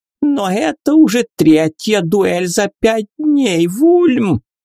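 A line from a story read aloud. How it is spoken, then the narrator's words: Countess's shrill shriek. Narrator (Russian): визгливо вскрикнула графиня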